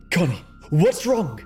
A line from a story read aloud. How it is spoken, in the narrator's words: She gasped, feeling with each breath that she may choke on her own heart